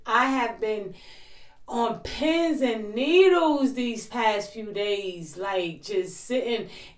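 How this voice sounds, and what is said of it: Excited voice. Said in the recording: “I am super excited. I'm sure you can hear it in my voice.”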